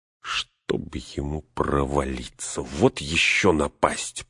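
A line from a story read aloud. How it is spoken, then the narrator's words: Grumbling. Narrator (Russian): проворчал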